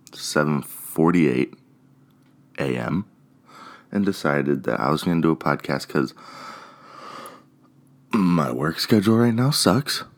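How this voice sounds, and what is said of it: Sleepy, groggy morning voice. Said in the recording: “As you can tell from my voice, I just woke up”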